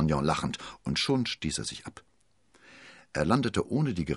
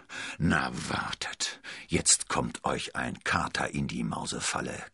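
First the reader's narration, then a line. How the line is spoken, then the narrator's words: Growling. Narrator (German): knurrte er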